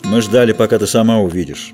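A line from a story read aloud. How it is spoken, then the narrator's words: Snorting. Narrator (Russian): хмыкнул мышавор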